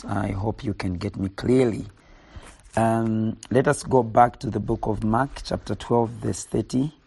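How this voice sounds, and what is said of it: Hoarse voice. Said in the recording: “my voice is quite hoarse”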